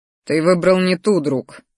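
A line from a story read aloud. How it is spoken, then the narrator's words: Wry snort. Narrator (Russian): хмыкнул я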